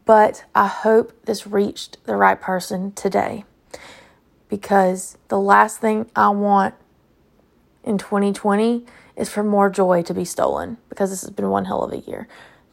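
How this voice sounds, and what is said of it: Tired-sounding voice. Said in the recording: “I know I'm super tired, and you can definitely hear it in my voice.”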